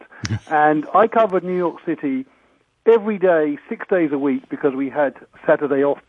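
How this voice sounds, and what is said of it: Noticeable non-American accent. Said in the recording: “I'm an adopted New Yorker and a naturalized American, despite my funny accent.”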